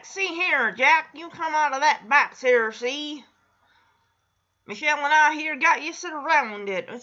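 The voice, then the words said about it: Old-time gangster voice. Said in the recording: “does an impression of like a gangster ... that's not a gangster. That's a cross between a”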